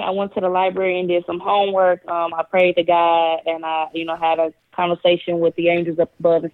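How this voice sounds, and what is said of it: Southern country accent. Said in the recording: “your country accent”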